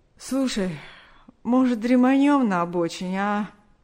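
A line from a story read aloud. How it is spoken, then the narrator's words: Weary yawning suggestion. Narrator (Russian): Борис устало зевнул и предложил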